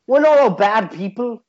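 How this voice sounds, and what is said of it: Attempted Scouse accent, drifting Irish. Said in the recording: “do a Scouse accent... That's more Irish.”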